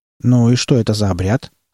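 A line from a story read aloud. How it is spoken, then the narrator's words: Calm question. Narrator (Russian): спокойно спросил Малдер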